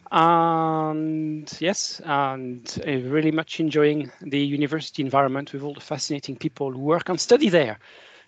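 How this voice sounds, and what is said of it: French accent. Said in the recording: “from my accent, you probably guessed I was born in France.”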